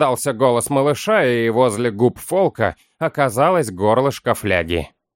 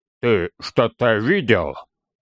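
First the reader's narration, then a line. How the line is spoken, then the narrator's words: Stammering. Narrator (Russian): Запинаясь, выговорил Торин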